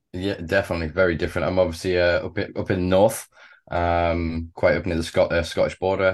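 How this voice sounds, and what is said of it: British English accent. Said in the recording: “you're from the UK, as many people could probably tell by your accent”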